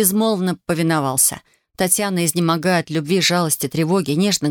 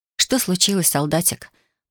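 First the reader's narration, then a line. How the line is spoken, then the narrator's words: Whispering. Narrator (Russian): Прошептала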